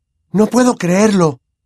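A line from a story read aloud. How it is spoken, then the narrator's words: Voice breaking with emotion. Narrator (Spanish): dijo con la voz quebrada por la emoción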